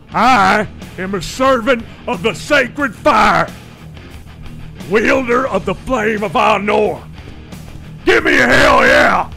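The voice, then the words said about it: Stone Cold Steve Austin impression. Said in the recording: “do a stone cold impression as Gandalf when facing off with the Balrog”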